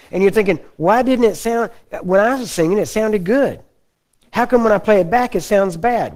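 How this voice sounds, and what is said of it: Southern American drawl. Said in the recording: “I kind of talking like a Texan there for a minute ... Actually, that wouldn't be Texan. That's more like Alabama ... Texans, we just have slow draw”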